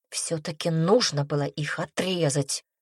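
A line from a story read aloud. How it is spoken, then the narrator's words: Worried whisper. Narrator (Russian): прошептала, возвращаясь к своим переживаниям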